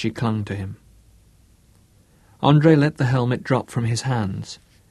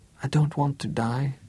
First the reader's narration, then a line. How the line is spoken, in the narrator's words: whispered